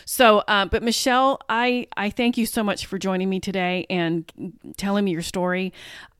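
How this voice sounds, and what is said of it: Choked-up, emotional voice. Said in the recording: “I'm getting choked up.”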